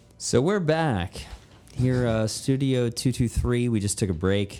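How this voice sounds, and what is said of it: Announcer-style spokesman voice. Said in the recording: “I sound like a spokesman ... Infomercial or some shit”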